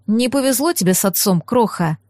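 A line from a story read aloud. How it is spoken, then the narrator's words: Sigh. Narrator (Russian): вздохнул граф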